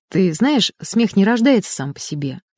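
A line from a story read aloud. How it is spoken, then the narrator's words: Thoughtful, professor. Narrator (Russian): задумчиво произнес профессор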